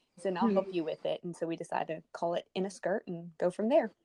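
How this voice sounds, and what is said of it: Texan southern American accent. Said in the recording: “I love your accent... I'm from Texas... This is like a proper southern accent”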